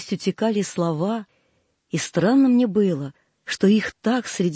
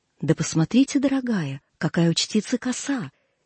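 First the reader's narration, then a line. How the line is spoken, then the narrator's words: Whisper from behind. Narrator (Russian): слышала позади себя шепот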